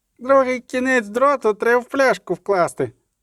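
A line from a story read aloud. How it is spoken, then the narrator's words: Sudden squeaky boy's voice. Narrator (Ukrainian): запищав раптом син, який крутився на ганку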